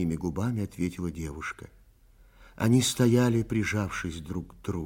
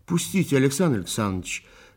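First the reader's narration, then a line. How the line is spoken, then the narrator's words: Mock-angry. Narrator (Russian): притворно-сердито сказала Оля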